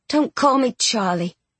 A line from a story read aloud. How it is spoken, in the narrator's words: she sighed